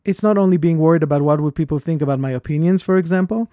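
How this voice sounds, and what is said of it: Speaks with a strong accent. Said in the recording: “I detect a small accent ... I have a lot of accent”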